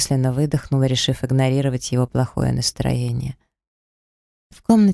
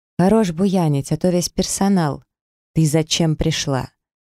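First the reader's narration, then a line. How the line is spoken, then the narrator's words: Man's sharp interruption. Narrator (Russian): Мужчина резко меня перебил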